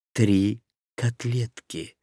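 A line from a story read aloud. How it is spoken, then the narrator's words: Quiet, to no one. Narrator (Russian): негромко проговорил, никому не обращаясь, Дин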